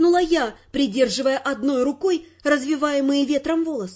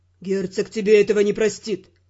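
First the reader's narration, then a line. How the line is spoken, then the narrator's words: Grim warning. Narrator (Russian): мрачно предупредил старший агент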